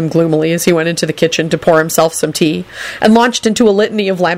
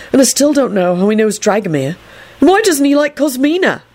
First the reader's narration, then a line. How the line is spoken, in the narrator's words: Neville told Trevor irritably